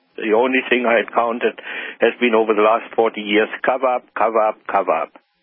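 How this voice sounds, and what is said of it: German accent. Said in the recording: “that accent that we're hearing, is German, correct? ... It's German.”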